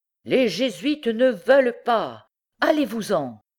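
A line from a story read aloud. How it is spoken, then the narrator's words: Shouting. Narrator (French): leur criait-il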